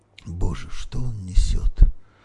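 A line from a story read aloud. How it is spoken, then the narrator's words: Horrified whisper. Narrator (Russian): в ужасе прошептал Юрий Андреевич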